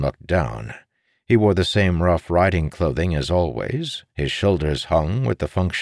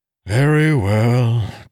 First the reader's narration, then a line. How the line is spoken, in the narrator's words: Tom said with a sigh